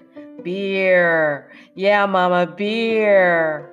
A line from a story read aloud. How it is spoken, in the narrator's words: Kyle jeered